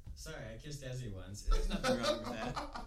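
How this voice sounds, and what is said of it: Sarcastic delivery. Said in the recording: “said it so sarcastically”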